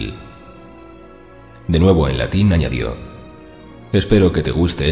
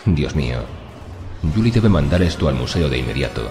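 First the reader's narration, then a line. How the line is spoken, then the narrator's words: Murmured. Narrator (Spanish): murmuró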